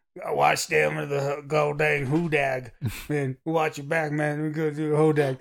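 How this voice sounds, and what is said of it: Backwoods Southern US accent. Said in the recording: “charming, like backwoodsy types down south ... that accent”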